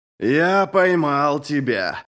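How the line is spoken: Growled. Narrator (Russian): прорычал он

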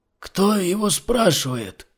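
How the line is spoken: Hoarse rasp. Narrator (Russian): прохрипел невидимый собеседник

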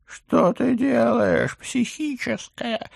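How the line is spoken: Hysterical howl. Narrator (Russian): истерично взвыл профессор

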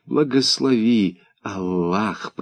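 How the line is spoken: Reverent whisper. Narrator (Russian): прошептал я, как когда-то отец

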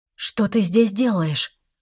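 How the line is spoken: Astonished breathless gasp. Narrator (Russian): выдохнула с изумлением

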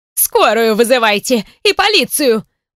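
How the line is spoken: Old woman screaming. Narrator (Russian): продолжает вопить бабулька

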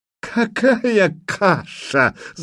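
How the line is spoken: Guffawing. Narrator (Russian): захохотал Курей

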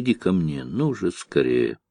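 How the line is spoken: Passionate whisper. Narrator (Russian): вдруг жарко шепнула

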